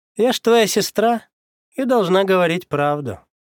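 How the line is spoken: Cheerful. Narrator (Russian): весело сообщила она

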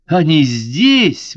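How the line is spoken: Exclaimed. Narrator (Russian): воскликнула она

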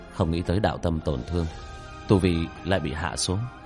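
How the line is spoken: Muttering. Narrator (Vietnamese): Hắn lẩm bẩm

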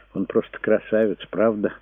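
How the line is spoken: Sad. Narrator (Russian): грустно произнесла Пилар

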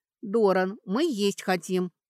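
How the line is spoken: Barking. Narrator (Russian): рявкнула Сашка

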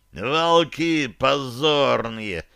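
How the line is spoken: Hoarse rasp. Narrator (Russian): хрипел он

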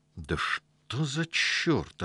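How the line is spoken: Worried mutter. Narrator (Russian): озабоченно пробормотал Сашок

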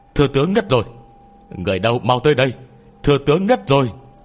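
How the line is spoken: Panicked shouting. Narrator (Vietnamese): đám hộ vệ kinh hãi, lập tức hét toáng lên

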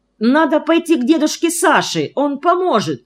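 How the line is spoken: Exclamation. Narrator (Russian): воскликнул Санди

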